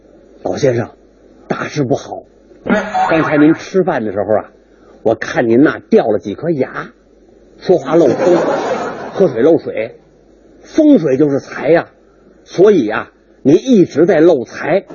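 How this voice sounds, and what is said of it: Speaking in a low voice. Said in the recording (Chinese): “小声”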